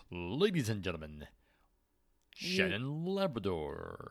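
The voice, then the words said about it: Boxing-ring announcer voice. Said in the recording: “announcer voice”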